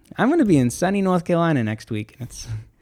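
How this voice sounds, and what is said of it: Put-on Boston accent. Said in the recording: “what's that baby voice for? ... No, it's like a Boston.”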